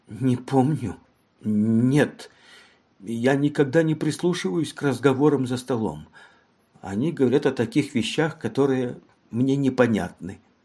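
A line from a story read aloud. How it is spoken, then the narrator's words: Whisper. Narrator (Russian): прошептала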